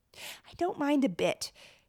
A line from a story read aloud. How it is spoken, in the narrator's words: Harriet insisted for the fifth time